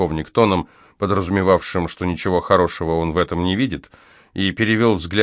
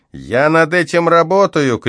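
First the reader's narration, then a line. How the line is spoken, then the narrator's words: Shouted reply from behind. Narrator (Russian): крикнул в ответ сержант из-за моей спины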